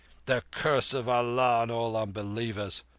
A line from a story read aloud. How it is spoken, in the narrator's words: said Mahbub heartily